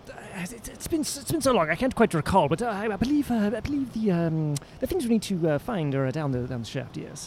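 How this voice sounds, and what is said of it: Accented wizard character voice. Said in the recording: “I'm trying to get return the full accent.”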